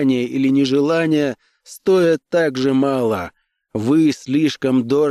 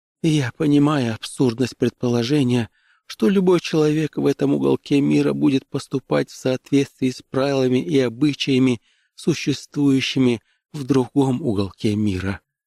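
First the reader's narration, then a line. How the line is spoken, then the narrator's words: Weak, dazed mumble. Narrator (Russian): пробормотала она слабо, едва понимая, что она говорит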